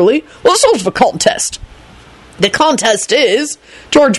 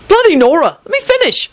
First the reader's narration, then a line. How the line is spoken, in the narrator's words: he said in an offended tone